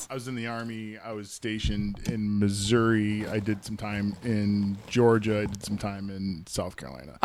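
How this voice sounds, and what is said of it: Mixed Southern-tinged drawl. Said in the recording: “you sound like you're not from the North ... that's the Army drawl that everybody gets after 15. It's a hodgepodge of accents ... my southern weird Army drawl starts coming out”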